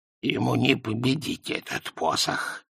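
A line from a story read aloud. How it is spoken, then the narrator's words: Hoarse reply. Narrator (Russian): хрипло ответил Хаккардли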